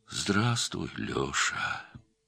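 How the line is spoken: Sad. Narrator (Russian): печально сказал

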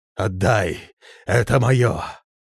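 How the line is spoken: Hoarse repetition. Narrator (Russian): хрипло повторяя

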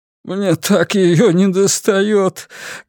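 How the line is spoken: Sobbing. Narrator (Russian): говорил он, всхлипывая

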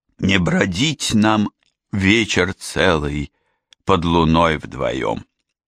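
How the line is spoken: Gloomy solemn recitation. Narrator (Russian): На сцене лорд Байрон мрачно и торжественно продекламировал

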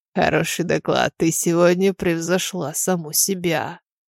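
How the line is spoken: Low voice in ear. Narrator (Russian): Стивен склонился к уху, вполголоса проговорив

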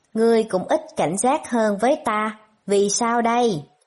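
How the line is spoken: Smiling, certain. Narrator (Vietnamese): Lãnh Hạ mỉm cười, cũng chắc chắn nói

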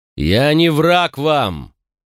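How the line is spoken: Loud repetition. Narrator (Russian): вновь довольно громко повторил я

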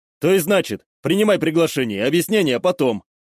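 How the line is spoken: Commanding tone. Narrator (Russian): Выдал я приказным тоном

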